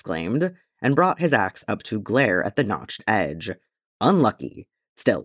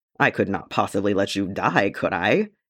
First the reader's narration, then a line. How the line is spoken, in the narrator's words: Gimli laughed